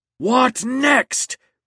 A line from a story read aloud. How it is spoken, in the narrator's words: roared James, who despised low culture